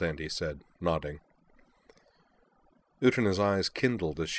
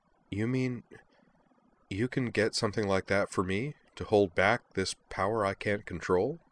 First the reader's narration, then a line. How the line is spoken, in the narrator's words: Beldandy chuckled gently